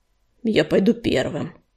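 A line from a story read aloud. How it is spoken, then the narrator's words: Muttered. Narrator (Russian): пробормотал он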